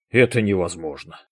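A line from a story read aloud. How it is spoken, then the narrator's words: Breathed out. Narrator (Russian): выдохнул Виктор Алексеевич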